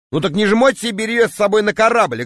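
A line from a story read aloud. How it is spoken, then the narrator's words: Snapping back. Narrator (Russian): огрызнулся я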